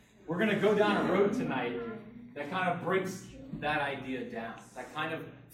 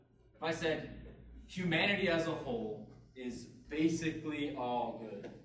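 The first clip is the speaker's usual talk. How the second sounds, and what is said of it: Sarcastic tone. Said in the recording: “You can tell, you can hear the sarcasm in my voice”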